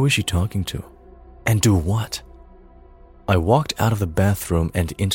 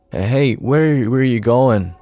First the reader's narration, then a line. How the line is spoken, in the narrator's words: slurred like I was drunk